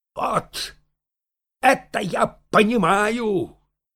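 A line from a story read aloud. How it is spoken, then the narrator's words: Shouted. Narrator (Russian): крикнул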